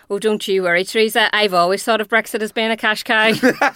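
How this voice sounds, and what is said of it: Imitates a Belfast-accented voice. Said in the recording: “great impression ... my Belfast accent”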